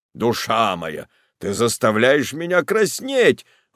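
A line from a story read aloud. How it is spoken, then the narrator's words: Exclaimed. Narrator (Russian): воскликнул муж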